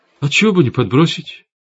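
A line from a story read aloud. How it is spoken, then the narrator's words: Sad agreement. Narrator (Russian): печально согласился Рома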